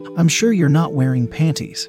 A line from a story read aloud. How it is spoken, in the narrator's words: he said